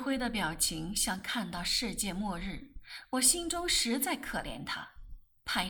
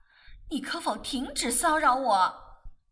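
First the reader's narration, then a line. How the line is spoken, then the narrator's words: Shouting rose. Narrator (Chinese): 玫瑰嚷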